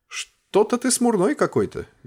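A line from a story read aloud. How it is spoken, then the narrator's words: Cheerful question. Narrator (Russian): Весело поинтересовался придворный артефактчик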